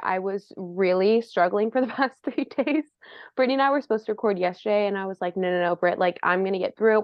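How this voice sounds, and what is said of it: Sick-sounding voice. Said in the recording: “I'm a little sick. If you hear it in my voice, then that's what you hear”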